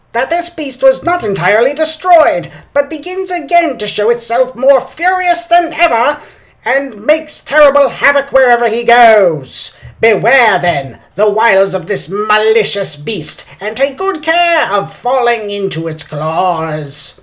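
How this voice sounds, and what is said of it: Old-time radio announcer voice. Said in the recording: “I like to use my old-time radio voice sometimes ... it dangerously slid toward seriously silly comic book guy”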